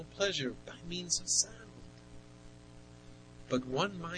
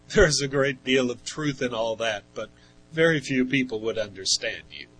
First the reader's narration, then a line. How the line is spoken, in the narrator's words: Bernard Grandin replied with a laugh